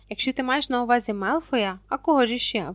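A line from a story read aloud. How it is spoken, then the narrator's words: Exclamation. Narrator (Ukrainian): вигукнув Рон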